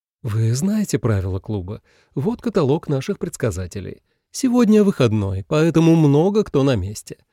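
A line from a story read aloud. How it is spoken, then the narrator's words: Cheerful explanation. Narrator (Russian): бодро пояснила Анжелика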